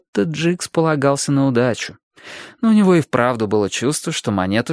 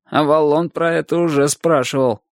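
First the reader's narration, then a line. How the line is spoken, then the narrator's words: Snorting. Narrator (Russian): хмыкнул Джикс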